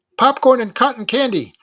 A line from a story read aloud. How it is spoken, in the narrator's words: chirped Robbie